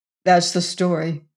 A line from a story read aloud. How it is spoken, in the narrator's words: he said, concluding